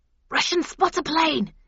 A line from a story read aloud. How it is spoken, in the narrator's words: hissed the doomed soldier